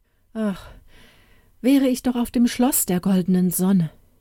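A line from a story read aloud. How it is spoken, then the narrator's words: Heartfelt sigh, calling out. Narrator (German): seufzte er aus Herzensgrund und rief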